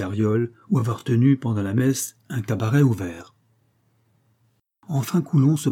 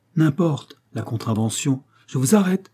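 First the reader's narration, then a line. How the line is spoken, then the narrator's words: Exclaimed. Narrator (French): s'écria Pécuchet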